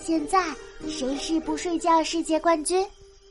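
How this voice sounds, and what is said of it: Quiet, hushed question. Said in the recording (Chinese): “黛拉小声问”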